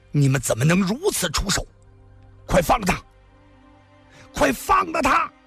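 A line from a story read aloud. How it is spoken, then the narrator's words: Frenzied roar. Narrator (Chinese): 他狂吼着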